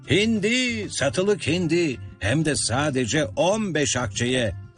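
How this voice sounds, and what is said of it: Loud shouting. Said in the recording (Turkish): “yüksek sesle bağırmaya başladı”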